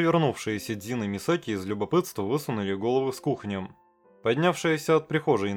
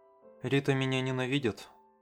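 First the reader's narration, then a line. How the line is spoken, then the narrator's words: Incoherent mumble. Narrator (Russian): бессвязно пробормотала Масера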